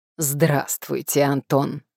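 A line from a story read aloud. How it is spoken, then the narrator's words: Sung in bass. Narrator (Russian): пропела Антонина басом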